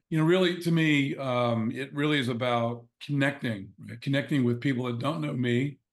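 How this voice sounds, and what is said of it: Hoarse voice from laryngitis. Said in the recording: “excuse my voice. I got a little bit of laryngitis”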